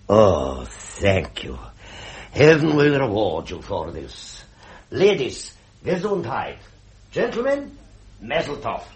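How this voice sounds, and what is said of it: German accent. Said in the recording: “talks with a German accent”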